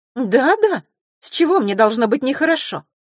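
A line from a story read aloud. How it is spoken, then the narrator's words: Too sharp. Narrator (Russian): произнесла это слишком резко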